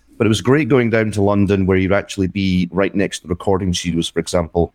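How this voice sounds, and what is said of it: Scottish accent. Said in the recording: “We were based in Scotland, as you might tell from the accent.”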